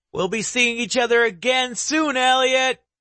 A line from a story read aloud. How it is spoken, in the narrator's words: Jones shouts from the rooftop